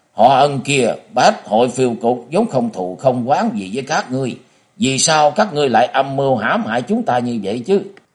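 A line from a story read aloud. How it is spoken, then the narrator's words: Angry shouting. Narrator (Vietnamese): Tào Chính Lộc giận dữ thét vàng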